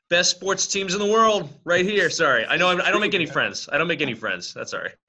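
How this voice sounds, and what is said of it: Boston accent. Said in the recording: “I love the accent. Boston, right?”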